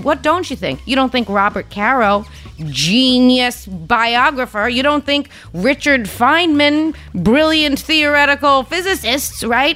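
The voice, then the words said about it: Strong regional accent. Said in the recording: “have a fucking accent. Because you hear my accent, you think construction worker nanny bullshit.”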